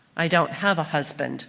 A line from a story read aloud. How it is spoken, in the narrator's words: replied the woman